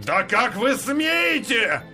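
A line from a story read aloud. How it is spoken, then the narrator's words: Passerby roaring. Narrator (Russian): взревел прохожий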